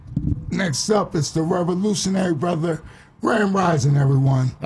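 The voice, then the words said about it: Soulful preacher-style announcer voice. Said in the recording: “preacher voice, that David Ruffin type, onward and upward voice”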